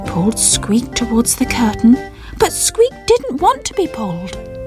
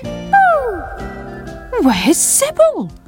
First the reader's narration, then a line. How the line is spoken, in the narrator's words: cried Sam